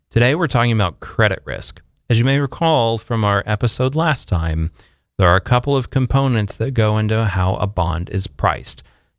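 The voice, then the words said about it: Slightly hoarse voice. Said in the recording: “my voice is getting a little hoarse”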